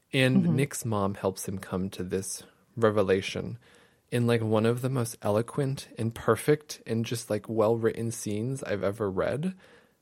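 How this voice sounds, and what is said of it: Slightly shaky, emotional voice. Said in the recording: “you can probably hear it in my voice. It's already a little shaky”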